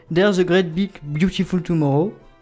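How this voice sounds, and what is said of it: Sings English with French accent. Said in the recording (French): “attention pour mon accent ... magnifique accent”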